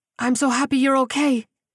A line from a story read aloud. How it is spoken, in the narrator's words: Sophia cried